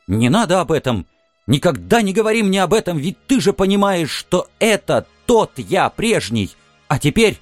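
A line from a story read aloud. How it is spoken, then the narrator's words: Flushed, agitated shout. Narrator (Russian): Кровь брызнула в уши, в щеки, я крикнул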